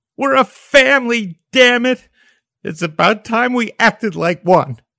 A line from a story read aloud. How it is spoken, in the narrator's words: And then broke down and sobbed, her body shaking violently